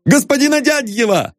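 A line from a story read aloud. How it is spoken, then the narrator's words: Delighted shout. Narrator (Russian): восторженно закричал Полисов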